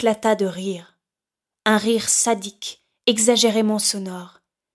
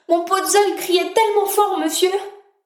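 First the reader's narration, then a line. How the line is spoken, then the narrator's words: Man howling, fading away. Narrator (French): Les hurlements de l'homme se perdirent dans la vallée du Nord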